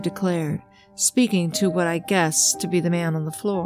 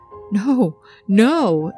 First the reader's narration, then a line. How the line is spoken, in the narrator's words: Eddie shouted back